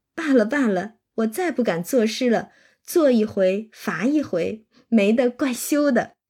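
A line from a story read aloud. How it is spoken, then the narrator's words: Laughing. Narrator (Chinese): 黛玉笑道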